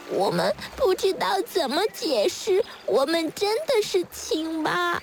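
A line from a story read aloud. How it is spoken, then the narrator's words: Tearful tadpoles, very quiet. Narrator (Chinese): 小蝌蚪们哭哭啼啼地……很小声地说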